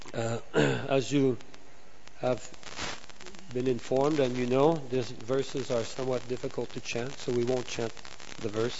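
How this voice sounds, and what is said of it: Voice sounds off from a cold. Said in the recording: “I have a little bit of a cold, so my voice is somewhat off”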